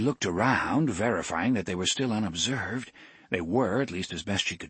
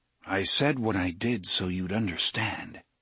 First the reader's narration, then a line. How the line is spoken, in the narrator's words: he said